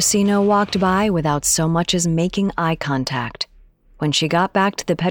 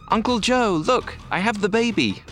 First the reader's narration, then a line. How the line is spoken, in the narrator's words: called out